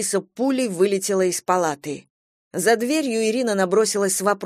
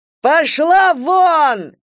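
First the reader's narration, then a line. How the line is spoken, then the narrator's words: Indignant yelling. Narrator (Russian): Вася залился краской, раздулся от возмущения так, что швы могли лопнуть, приподнялся и заорал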